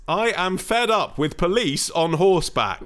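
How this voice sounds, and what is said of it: Shouting. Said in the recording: “This is in capitals, that's why I'm shouting. I'm sorry if it offends your ears.”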